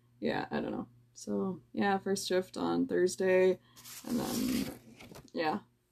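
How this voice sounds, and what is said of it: Low, tired voice holding back tears. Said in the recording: “I'm sorry that I'm stammering a lot ... I'm tired, and I'm really trying not to cry ... as you can probably tell in my voice, I'm not really breaking, it's just more low ... I'm A, really tired, and B, I'm just trying not to cry”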